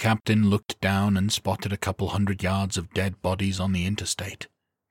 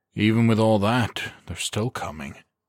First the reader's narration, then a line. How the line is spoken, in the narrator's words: he said with a sigh